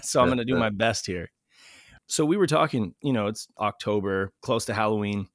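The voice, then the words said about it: Hoarse, partly lost voice. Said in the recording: “as you guys can probably hear, I lost my voice at PRGE and it hasn't completely come back”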